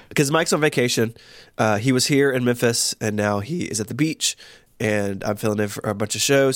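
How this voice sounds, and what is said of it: Rough, sick-sounding voice. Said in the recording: “slightly ill ... slightly ill, so I apologize for any grossness of my voice ... I don't think I'm going to have a voice tomorrow”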